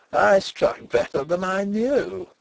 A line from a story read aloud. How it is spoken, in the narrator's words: he laughed triumphantly